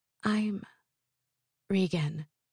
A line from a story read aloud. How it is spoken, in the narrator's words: in a quiet voice, says